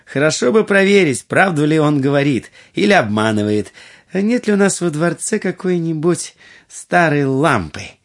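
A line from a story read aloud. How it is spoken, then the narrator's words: Laughing. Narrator (Russian): Будур рассмеялась и сказала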